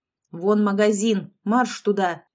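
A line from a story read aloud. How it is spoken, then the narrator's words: Barked command. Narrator (Russian): рявкнула Лолита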